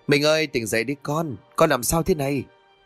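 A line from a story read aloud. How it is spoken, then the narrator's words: Panicked father's distorted voice. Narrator (Vietnamese): bố nó ... mồm méo sạch đi vì hoảng loạn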